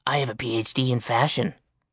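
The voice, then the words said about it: Gruff imitated male voice. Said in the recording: “did a decent imitation of Halfborn's gruff voice”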